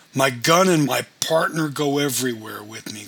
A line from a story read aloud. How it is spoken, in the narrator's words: growled Albert